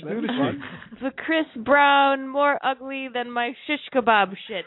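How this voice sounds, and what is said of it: Iron Sheik impression. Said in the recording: “your Sheik impression ... That was good. That's a good impression.”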